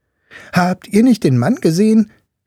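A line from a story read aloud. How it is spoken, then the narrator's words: Boy calling out. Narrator (German): rief ihm der Junge zu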